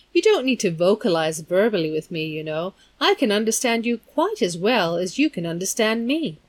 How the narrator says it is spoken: he continued blandly

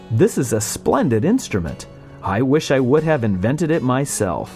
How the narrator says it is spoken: Zworykin was amazed and impressed by the work, exclaiming

